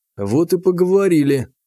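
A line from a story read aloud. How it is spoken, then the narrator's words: Sighed. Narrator (Russian): вздохнул я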